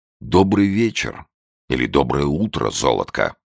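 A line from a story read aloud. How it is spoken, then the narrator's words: Tender reply. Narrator (Russian): ласково ответил Беллами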